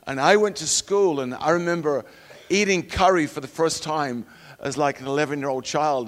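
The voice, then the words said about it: Northern English accent. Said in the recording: “When I grew up in England, that's where I'm from, not southern Texas, you may have gathered that by my accent”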